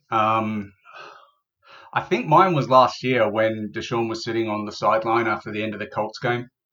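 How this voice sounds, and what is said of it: Somewhat different London accent. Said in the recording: “is London, but he's got a bit of a different accent.”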